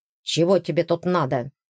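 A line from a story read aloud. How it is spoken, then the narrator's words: Sharp growl. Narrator (Russian): рыкнул Эйсон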